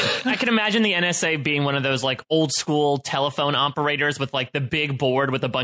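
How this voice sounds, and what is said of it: Usual voice. Nothing is said of it.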